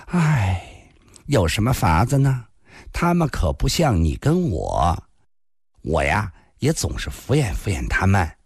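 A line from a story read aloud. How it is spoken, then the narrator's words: Sighing. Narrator (Chinese): 林仙儿叹了口气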